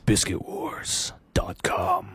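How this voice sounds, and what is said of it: Deliberately deeper voice. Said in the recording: “Can you say it deeper in a deeper voice?”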